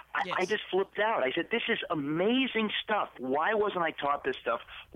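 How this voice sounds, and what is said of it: Excited, animated voice. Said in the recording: “I got so excited. You can tell from my voice.”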